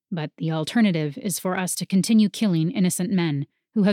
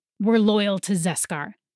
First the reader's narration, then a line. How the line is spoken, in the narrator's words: the man snapped